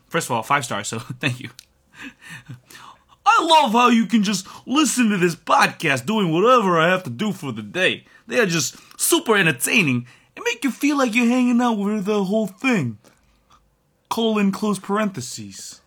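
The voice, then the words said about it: Put-on New York accent. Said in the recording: “amazing accent ... Yeah, I think that was spot on. ... I'm from New York.”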